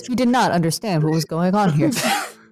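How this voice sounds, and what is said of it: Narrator voice. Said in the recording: “Narrator voice.”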